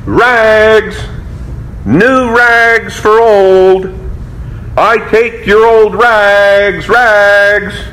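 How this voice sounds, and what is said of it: Clear tenor calling voice. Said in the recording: “calling in this clear tenor voice”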